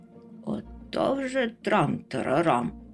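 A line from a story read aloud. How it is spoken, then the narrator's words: Grumbled. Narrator (Ukrainian): буркнув Мумітроль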